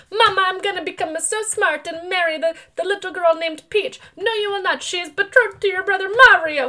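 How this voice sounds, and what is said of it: Bad put-on Italian accent. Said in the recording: “my bad Italian accent”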